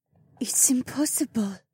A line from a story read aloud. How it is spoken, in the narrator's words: Hilda whispered